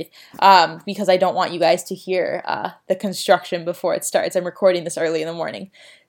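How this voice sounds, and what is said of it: Very fast, breathless speech. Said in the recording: “I'm talking so fast I can barely breathe”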